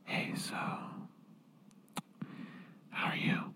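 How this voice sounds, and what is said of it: Soft whispering voice. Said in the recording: “whisper”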